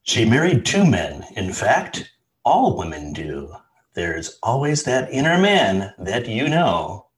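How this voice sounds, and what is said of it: Announcer-style radio voice. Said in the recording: “put on my radio voice”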